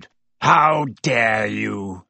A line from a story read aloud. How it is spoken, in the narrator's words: he growled, sounding suddenly like the bear sized dog he had been